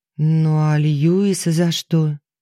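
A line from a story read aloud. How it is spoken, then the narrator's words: Timid question. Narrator (Russian): робко поинтересовалась Алиса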